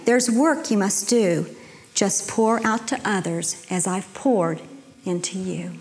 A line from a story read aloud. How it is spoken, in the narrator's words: Spoke to it kindly